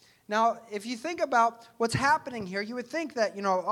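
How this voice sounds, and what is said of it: Usual voice. Nothing is said of it.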